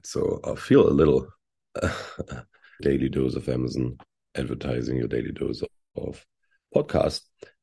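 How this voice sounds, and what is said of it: Cracked, hoarse voice. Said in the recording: “You might hear it from my sound, from my voice. My voice is going to be cracked”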